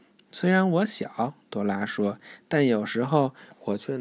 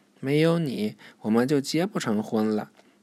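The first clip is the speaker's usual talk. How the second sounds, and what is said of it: Quiet, soft-spoken line. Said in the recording (Chinese): “露西阿姨小声说”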